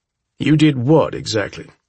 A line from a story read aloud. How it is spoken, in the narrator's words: asks Officer Keith